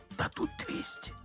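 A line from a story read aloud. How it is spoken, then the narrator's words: Whispered. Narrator (Russian): зашептал переводчик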